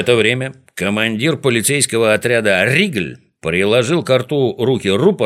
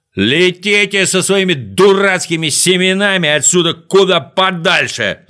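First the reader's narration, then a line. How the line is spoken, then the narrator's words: Full-throated yell. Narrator (Russian): заорал Ригль во все горло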